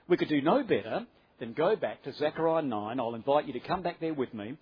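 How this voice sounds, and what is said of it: Australian accent. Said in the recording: “You coping all right with the Australian accent?”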